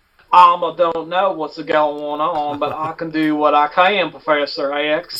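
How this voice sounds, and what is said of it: Exaggerated Kentucky accent. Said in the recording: “a shitty Kentucky accent”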